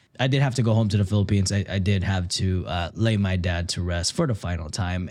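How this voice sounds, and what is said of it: Deep, husky radio-DJ-like voice. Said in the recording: “I am very sick, COVID right now. That's why I sound like a radio DJ.”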